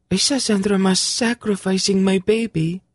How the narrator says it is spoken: Tsinedra said in a stricken voice

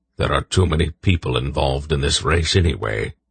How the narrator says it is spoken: Belgarath grunted

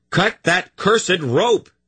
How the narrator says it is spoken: Garion bellowed

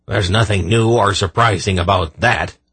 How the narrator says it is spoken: Belden growled

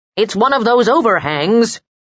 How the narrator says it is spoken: yelled in her ear

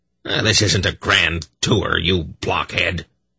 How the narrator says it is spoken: Belden snapped irritably

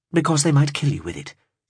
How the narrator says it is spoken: she replied brightly

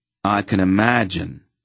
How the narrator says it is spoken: said dryly

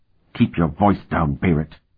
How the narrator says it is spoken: Sparhawk hissed

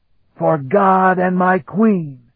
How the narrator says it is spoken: he bellowed his defiance

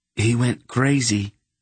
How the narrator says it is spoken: Garion said in a choked voice, still filled with the horror of the encounter

